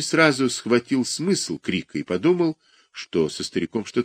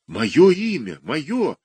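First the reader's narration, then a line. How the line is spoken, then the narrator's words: Exclamation. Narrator (Russian): воскликнул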